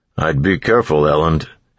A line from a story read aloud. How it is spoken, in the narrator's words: Ham said with a chuckle